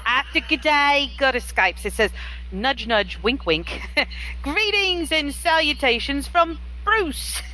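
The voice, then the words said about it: Bad put-on Australian accent. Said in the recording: “your Australian accent ... It's bad ... that's the worst ... I want to hear the whole thing in your Australian accent”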